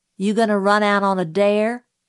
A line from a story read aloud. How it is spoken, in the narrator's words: asked Dill